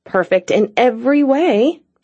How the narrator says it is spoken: Cassie grumbled

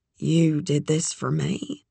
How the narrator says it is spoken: she asked, too quietly for them to hear

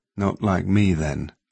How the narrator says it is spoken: Cat said sadly

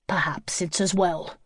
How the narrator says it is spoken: Greg said crossly

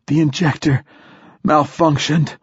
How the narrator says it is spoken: gasped Hoyt

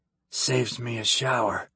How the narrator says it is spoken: he muttered

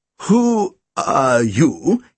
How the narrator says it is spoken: he quavered

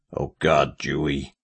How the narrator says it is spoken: murmured, face in his hands

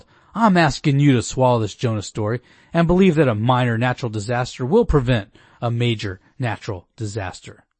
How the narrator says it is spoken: Herbert grew defensive and yelled

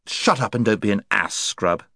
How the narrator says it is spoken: said Jill hastily, terrified lest the Marshwiggle should take him at his word

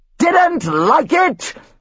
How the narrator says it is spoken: his father screamed

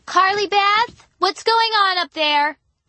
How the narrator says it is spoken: Mom shouted from the bottom of the stairs

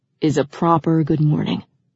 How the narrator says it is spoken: he said in a loving tone

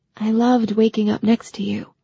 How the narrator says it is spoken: she said in a soft voice

